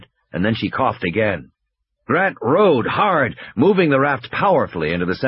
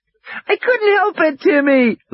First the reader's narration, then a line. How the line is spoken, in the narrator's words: Lex shrieked miserably